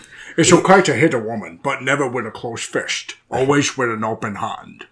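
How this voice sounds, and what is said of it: Attempted Scottish Sean Connery impression. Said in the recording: “a Norwegian man with a southern accent attempting to do a Scottish accent... Sean Connery”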